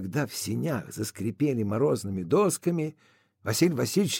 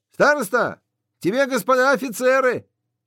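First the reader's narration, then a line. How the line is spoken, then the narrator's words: Shouted. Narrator (Russian): Андрей крикнул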